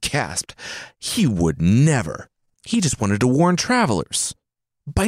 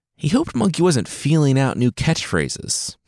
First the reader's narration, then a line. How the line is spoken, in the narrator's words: he said with a nervous chuckle